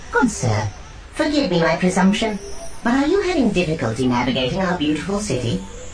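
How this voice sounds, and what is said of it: Matronly, cultured droid voice. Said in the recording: “a sparkling silver protocol droid ... addressed Kedpin in a matronly, cultured accent”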